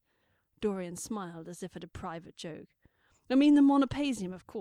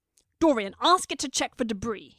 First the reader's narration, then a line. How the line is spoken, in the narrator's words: he snapped